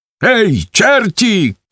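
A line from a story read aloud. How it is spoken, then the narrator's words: Shout. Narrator (Ukrainian): крикне Гвинтовка на свої слуги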